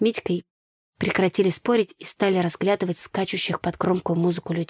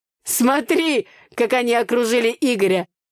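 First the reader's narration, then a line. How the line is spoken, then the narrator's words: Laughing. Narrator (Russian): рассмеялся Митя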